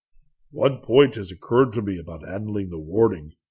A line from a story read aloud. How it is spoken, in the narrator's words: boomed Carfon